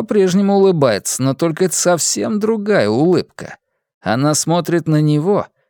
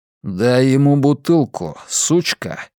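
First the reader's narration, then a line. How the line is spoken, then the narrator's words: Plain. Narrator (Russian): говорит Джонни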